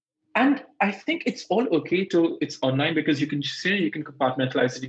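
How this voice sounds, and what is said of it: Indian accent with rolled Rs. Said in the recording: “listen to my accent for the least. I mean, I roll my R so much that I pronounce myself as Indian”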